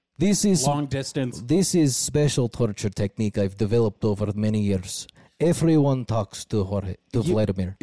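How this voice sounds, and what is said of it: Put-on Russian accent. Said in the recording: “with a Russian accent.”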